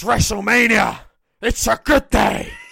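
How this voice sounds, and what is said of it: Imitates another person's voice. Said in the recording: “your best Vince McMahon impersonation”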